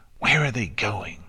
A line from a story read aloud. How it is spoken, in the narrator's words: Diamond Tiara whispered harshly